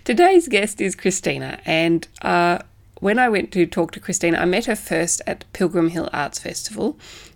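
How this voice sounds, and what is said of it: Congested, sick-sounding voice. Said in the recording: “you can probably hear in my voice that I am fighting a cold”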